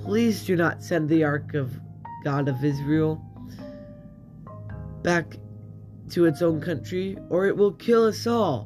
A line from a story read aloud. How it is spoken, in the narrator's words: The people begged them